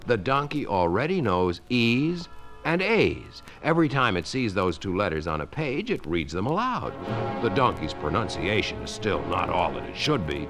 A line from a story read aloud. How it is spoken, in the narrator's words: said Till calmly